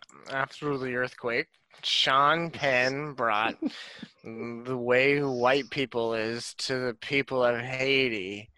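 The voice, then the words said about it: Drunken-sounding put-on voice. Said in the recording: “your accent is drunk”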